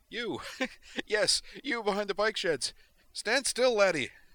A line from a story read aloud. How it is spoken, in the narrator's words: Actually giggling now, Griffin said